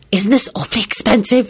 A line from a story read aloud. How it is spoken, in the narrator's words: She whispered